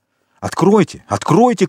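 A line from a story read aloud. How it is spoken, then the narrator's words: Shouted. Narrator (Russian): крикнул Вильфор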